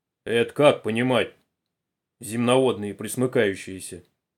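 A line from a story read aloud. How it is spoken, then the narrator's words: Deep bass voice. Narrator (Russian): плечистый рабочий с темными усами пробасил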